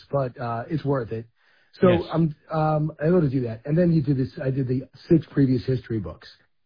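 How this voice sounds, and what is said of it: Slightly hoarse voice. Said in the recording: “losing your voice ... I'm a little hoarse”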